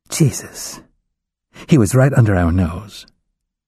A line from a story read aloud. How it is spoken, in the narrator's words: Faith hissing